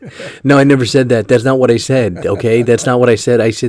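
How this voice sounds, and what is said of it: Usual voice. Nothing is said of it.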